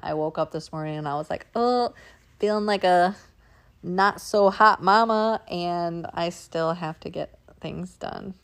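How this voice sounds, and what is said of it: Scratchy, sick-sounding voice. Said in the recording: “I'm sick... my voice is a little scratchy”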